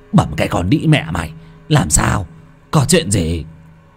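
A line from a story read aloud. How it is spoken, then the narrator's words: Frightened yelling. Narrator (Vietnamese): Thằng Tuất tái mặt mà gào lên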